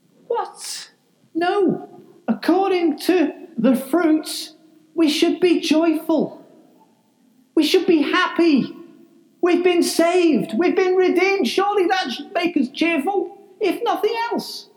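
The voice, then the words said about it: Slipped into Lancashire accent. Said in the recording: “I just realised I kind of got into a Lancashire accent. That wasn't deliberate.”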